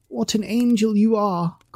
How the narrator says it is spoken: cried the young Duke

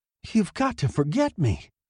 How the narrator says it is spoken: she sobbed

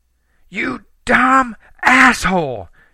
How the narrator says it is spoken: she screamed

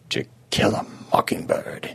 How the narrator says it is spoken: he murmured

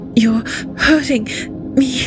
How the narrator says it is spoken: gasped through gritty, milk-stained lips

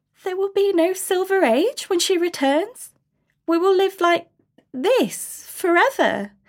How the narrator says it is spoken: A tremulous voice from the back of the crowd cried out

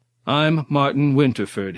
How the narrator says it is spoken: he reaffirmed more loudly, trying to bluff his way out of whatever situation he had blundered into

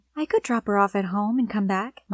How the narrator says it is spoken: my mom said sweetly

